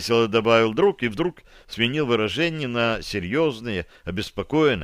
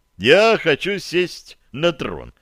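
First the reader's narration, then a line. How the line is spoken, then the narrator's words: Nearly laughing. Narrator (Russian): чуть не рассмеялся Феликс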